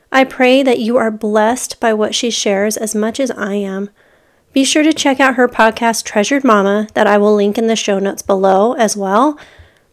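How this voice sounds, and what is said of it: Sick-sounding voice. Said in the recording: “As you may be able to tell from my voice, I am a bit under the weather right now.”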